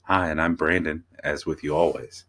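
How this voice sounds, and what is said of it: Smooth radio-announcer voice. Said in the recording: “is that your NPR voice today? ... This is my podcast voice. ... Is that your talk radio voice today?”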